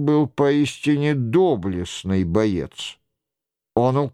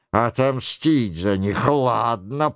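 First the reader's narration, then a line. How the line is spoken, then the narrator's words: Creaky voice. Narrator (Russian): проскрипел Роншероль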